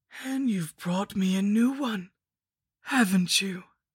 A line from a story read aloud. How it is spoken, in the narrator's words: I moaned through my skull mask